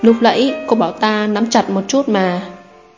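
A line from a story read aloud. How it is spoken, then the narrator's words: Sighing. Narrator (Vietnamese): Hành Vân đã thở dài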